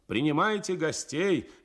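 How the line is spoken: Shouted. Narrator (Russian): кричал

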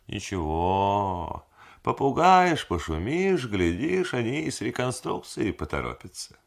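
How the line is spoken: Good-natured drawl. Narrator (Russian): благодушно протянул

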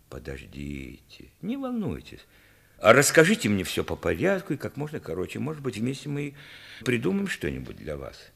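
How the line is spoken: Old man, friendly but serious. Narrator (Russian): Старик сказал дружелюбно, но серьезным тоном

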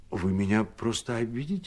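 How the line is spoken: Timid cavalryman speaking. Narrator (Russian): говорил робко кавалерист

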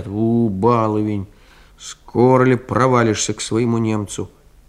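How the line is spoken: Servants grumbling. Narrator (Russian): слуга или девка проворчат

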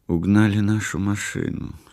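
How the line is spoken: Quiet. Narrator (Russian): сказала она тихо

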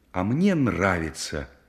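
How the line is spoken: Girl's exclamation. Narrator (Russian): воскликнула девушка

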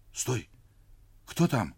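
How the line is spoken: Girl's frightened whisper. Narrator (Russian): испуганно прошептала девочка

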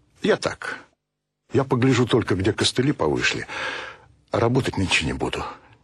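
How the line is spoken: Quiet father. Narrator (Russian): тихо сказал отец

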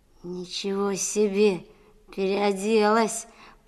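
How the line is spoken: Drawled. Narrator (Russian): протянул Колька

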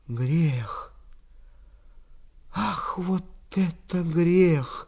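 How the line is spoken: Whisper. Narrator (Russian): шептал

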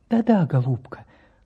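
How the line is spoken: Tender, then quieter. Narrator (Russian): Ласково отозвался профессор и продолжал потише

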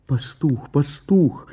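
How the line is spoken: Helpless pleading. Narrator (Russian): взмолилась беспомощная Гера

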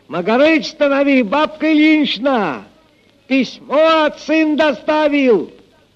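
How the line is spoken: Shout from afar. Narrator (Russian): Прохор, еще издали крикнул

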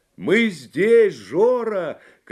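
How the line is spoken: Shouting. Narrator (Russian): кричал Ива

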